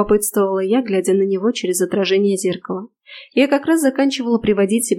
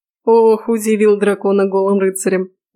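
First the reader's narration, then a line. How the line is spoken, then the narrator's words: Snort of suppressed laughter. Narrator (Russian): Не выдержав, фыркнул от сдерживаемого с трудом смеха Фрей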